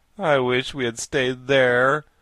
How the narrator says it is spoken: moaned Jack

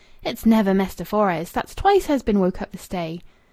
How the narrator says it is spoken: exclaiming

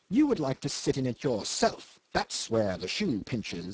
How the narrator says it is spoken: he sneers

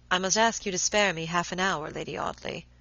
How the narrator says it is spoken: Robert answered in a low voice

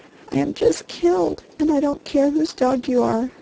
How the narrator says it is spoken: sobbed the girl

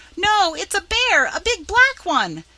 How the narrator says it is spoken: screaming in a great panic

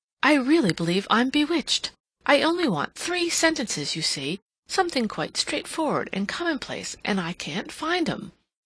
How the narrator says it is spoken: Hilbery turned abruptly and exclaimed

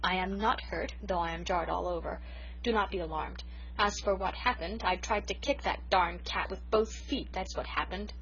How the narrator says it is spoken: she said grimly

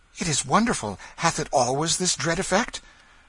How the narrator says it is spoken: He said eagerly

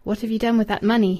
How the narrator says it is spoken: he asked, in a cold voice

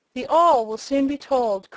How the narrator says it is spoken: cried Tom hastily, and with affected unconcern

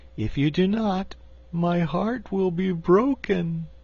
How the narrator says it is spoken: declared the cookie cook in a sorrowful voice

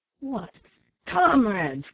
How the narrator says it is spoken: cried Black Jim with an oath and looking fiercely round

